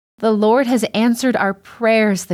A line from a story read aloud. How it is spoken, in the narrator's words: the people shouted out